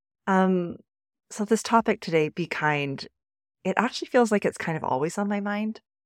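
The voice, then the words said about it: Husky voice from a cold. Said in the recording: “I still have a little bit of this cold hanging on, so my apologies about my extra sexy voice”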